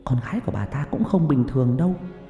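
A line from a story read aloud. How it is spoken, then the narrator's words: Whisper. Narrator (Vietnamese): Người phụ nữ thì thầm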